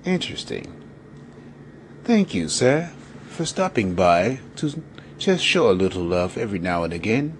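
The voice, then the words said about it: Put-on British accent. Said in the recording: “in that British accent.”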